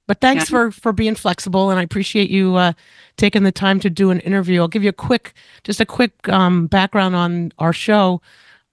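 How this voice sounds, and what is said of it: Slightly rough, sick voice. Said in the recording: “My voice is a little I have COVID, so my voice is just a little rough”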